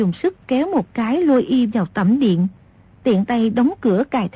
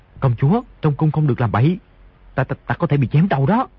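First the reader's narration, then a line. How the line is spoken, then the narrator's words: Frightened, lowered voice. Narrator (Vietnamese): Di Tiểu Bảo hoảng sợ, tim đập thình thịch, hạ giọng nói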